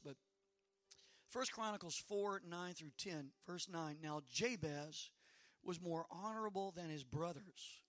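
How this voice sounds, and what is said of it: Slightly hoarse voice. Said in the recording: “Forgive my voice ... you can hear I'm a little hoarse.”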